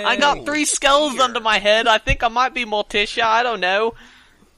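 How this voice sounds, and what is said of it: Put-on British accent. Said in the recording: “I need to bust out my British accent ... please keep reading in your British accent.”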